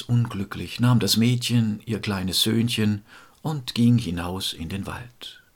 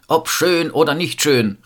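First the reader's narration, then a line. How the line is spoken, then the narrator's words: Father calling out. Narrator (German): rief der Vater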